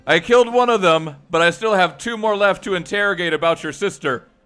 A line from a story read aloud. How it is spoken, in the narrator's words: Mendel shouts behind him